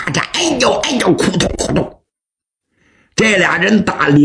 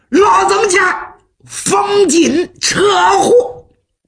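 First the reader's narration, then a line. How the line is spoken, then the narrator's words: Speaking trade slang. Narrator (Chinese): 徐良说了句行话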